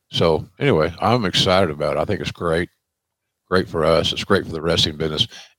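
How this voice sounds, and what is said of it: Southern American drawl. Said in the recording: “My Southern drawl sometimes has to be repeated, even in England.”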